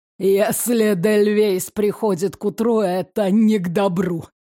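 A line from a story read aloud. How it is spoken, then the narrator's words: Nervous snort. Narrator (Russian): нервно хмыкнул главарь шайки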